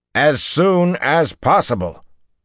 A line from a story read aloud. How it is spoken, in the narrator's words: Rand snapped